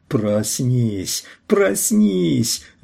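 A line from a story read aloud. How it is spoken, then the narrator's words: Shrill frightened schoolboy voice. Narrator (Russian): визгливым голосом испуганного школьника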